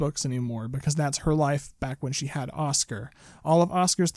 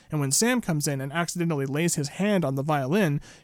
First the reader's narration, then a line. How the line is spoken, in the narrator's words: she shouts at him